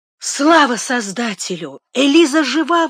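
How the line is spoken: Exclamation. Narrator (Russian): воскликнула она

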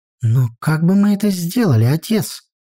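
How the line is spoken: Confused question. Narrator (Russian): растерянно спросила я

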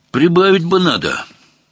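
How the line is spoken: Sighing. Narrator (Russian): вздохнул Багрецов

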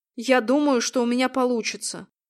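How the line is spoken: Plain. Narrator (Russian): наконец сказал он

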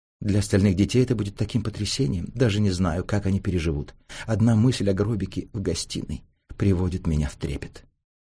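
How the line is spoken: Whispering, mother. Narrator (Russian): Мать шепотом говорила тете Софи

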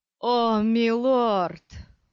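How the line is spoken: Moaning. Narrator (Russian): простонал Стилгар

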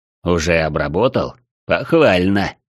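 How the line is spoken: Humorless snort. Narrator (Russian): хмыкнул катарианец, и от его веселья не осталось и следа

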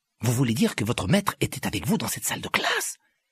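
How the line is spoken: Horrified exclamation. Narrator (French): s'exclama Harry avec horreur

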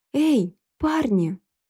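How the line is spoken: Shouting at full voice. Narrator (Russian): крикнула я во весь голос

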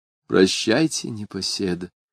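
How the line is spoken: Tender whisper. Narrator (Russian): прошептала девушка, ласково

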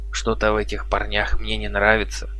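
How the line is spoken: Whisper. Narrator (Russian): шепнул он

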